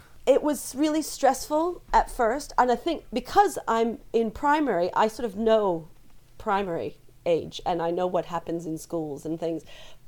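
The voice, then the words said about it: American accent. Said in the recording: “you can tell from my accent, I'm not from England ... I was born outside of New York City”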